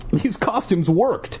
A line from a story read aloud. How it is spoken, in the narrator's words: I exclaimed